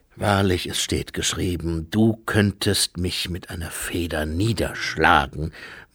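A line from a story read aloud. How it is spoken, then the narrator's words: Murmur. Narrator (German): murmelte er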